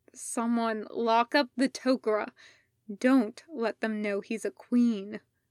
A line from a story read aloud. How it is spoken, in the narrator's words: Daniel tried to speak, making a few attempts until he could croak out